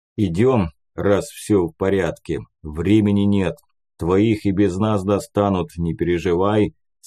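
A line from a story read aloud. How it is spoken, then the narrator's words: Plain. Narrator (Russian): сказал Леший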